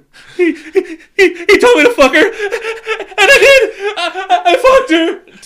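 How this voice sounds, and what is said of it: Hyperventilating, panicked imitation of someone. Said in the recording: “that dude's just fucking having, like, hyperventilating... your best impression of him”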